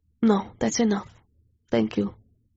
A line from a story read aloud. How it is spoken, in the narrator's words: I whispered